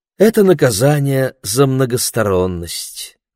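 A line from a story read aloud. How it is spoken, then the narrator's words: Sighing. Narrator (Russian): вздохнул Ларри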